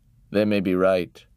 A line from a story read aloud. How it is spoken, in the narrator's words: Father grunted